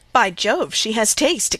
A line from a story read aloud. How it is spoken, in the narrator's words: exclaimed Henry Lynn